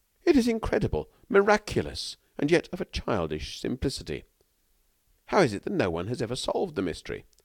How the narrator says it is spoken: He exclaimed

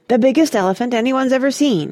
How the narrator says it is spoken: he'd said excitedly

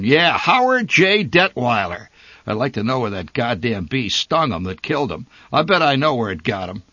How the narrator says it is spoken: he roared

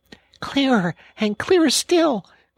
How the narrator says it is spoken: cried the Rat joyously

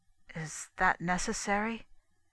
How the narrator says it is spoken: asked John gravely

